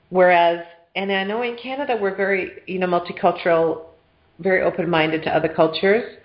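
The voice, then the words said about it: North American accent, sounds American. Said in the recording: “I stand out like a sore thumb here because of my accent, and everybody always thinks I'm American. ... everybody thought I was from New York.”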